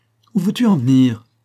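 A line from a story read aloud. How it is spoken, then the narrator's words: Angry exclamation. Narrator (French): s'écria-t-il, car la colère le gagnait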